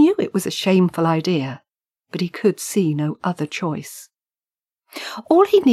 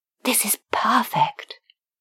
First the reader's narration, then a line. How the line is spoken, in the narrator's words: whispered